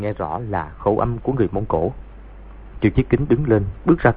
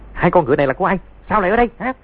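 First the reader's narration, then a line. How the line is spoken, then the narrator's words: Shout. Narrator (Vietnamese): tiếng quát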